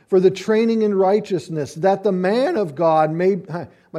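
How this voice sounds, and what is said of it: Voice cracks mid-sentence. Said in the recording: “My voice just cracked. You think at 51 I'd be past puberty by now”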